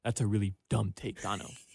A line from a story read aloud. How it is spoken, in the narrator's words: whispered